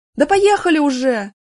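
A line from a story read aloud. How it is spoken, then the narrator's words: Impatient shout. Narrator (Russian): нетерпеливо крикнул кто-то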